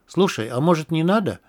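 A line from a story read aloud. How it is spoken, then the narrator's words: Timid suggestion. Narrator (Russian): робко предложил я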